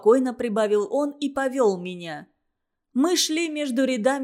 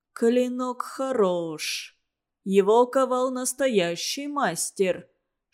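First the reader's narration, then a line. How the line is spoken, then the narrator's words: One-eyed man's whisper. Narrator (Russian): шептал одноглазый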